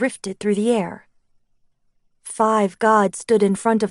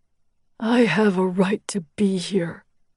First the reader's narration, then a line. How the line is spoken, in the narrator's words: Helios growled